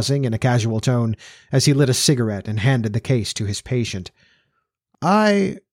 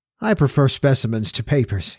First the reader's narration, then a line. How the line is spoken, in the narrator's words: he laughed cheerfully